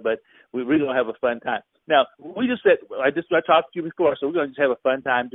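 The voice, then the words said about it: Excited, hyped-up radio voice. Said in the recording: “I got my radio voice on today, you know, I get all excited and hyped up”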